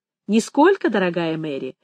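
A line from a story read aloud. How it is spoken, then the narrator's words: Laughing. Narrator (Russian): засмеялся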